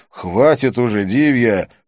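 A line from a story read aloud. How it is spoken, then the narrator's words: Irritated interruption. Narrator (Russian): раздраженно прервал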